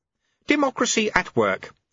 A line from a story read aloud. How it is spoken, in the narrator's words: said Lutse happily